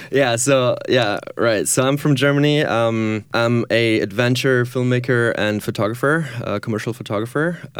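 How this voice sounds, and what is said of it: German accent. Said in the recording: “Gotta love the German accent.”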